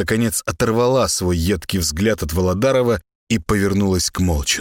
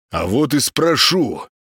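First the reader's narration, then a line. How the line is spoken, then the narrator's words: Loud barking retort. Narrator (Russian): гаркнул в ответ сельский голова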